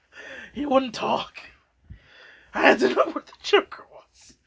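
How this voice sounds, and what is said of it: Batman character voice. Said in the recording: “Don't do the voice. ... You don't have this Batman. ... are you stuck in this voice now?”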